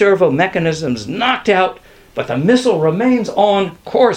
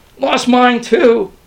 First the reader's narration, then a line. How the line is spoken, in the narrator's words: moaned Thomas